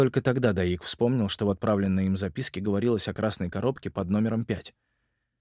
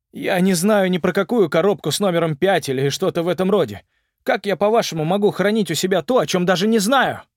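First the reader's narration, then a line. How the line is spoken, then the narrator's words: Shouted into darkness. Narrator (Russian): крикнул он в темноту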